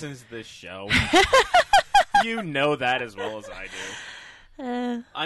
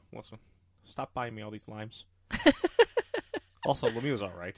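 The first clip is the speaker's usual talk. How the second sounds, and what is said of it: Impression of Sean Leahy. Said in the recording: “My Leahy impression is not as good as Wyszynski's Leahy impression”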